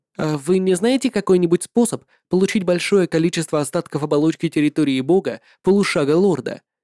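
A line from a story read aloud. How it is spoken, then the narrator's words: Plain. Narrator (Russian): спросил Линь Хуан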